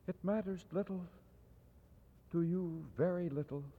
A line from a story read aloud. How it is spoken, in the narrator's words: she said softly